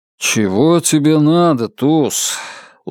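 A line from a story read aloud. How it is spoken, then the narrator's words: Tired voice. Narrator (Russian): устало проговорил Нат Коупленд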